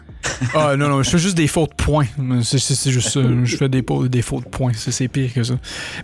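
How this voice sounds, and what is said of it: Québécois French accent. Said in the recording (French): “je peux, soit parler vite ... mon accent québécois”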